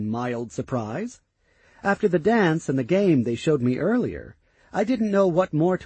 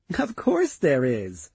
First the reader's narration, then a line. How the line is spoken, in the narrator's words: she laughed